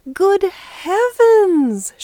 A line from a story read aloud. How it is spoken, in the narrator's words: she exclaimed